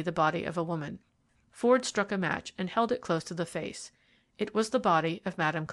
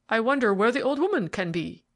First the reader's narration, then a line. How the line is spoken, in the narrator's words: he exclaimed